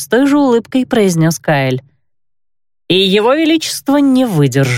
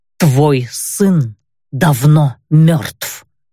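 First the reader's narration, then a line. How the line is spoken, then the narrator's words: Clipped, emphatic. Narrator (Russian): отчеканил Кайль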